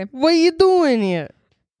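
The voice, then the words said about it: Put-on Italian accent. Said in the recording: “You should sing the outro in your Italian accent ... I'm just practicing my accent ... Okay, Mario.”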